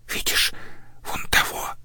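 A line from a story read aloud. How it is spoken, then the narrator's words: Whisper in the ear. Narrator (Russian): прошептала ей в ухо Мария, одна из сестер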